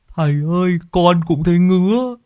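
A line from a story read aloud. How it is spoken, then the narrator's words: Whimpering, near tears. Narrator (Vietnamese): Lâm Sẹo mếu máo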